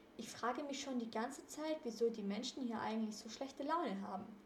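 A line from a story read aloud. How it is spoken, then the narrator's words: Murmured while lying relaxed. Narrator (German): murmelte Justus, nachdem sie sich im Wasser abgekühlt hatten und auf ihren Handtüchern im Schatten lagen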